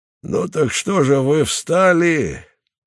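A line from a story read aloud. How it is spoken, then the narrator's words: Deep booming voice. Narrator (Russian): глубоким раскатистым голосом сказал вожак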